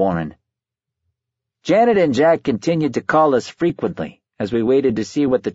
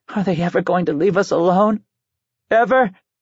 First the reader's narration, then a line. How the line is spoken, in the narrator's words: Sobbing, she said